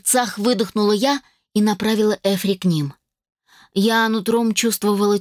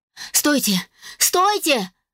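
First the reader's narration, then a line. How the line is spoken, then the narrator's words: Shouting. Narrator (Russian): закричала я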